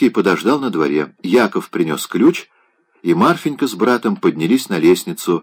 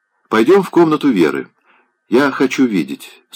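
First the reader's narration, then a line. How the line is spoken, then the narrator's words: Plain. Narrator (Russian): сказал Райский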